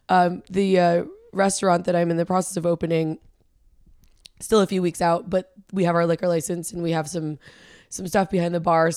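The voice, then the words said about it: Raspy, strained worn-out voice. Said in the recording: “my voice is a little bit shot right now, if you guys can tell ... it's raspy to begin with. And now we just have some extra rasp extra today”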